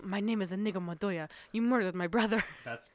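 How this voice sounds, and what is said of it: Put-on Spanish accent. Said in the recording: “That was my Spanish accent.”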